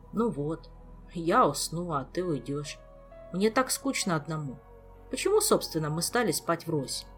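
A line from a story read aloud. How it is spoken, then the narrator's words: Soft sighing. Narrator (Russian): Ольга тихо вздохнула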